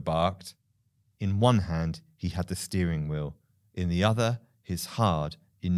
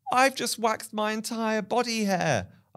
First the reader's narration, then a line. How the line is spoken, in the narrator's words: I shouted back